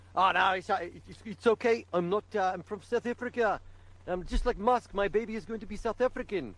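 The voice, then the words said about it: Put-on South African accent. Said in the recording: “Better start learning your South African accent then.”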